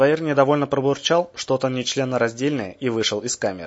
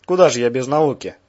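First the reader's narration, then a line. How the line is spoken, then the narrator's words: Bear chuckling. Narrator (Russian): хохотнул медведь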